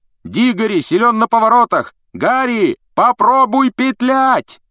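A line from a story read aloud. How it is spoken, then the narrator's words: Shouting after someone. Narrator (Russian): Вуд все еще кричал ему вдогонку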